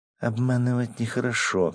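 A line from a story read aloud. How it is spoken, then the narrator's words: Cooing. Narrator (Russian): проворковала Акая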